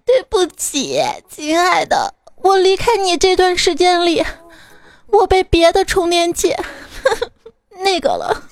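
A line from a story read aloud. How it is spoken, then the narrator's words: Sobbing bitterly. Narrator (Chinese): 手机看到充电器就失声痛哭的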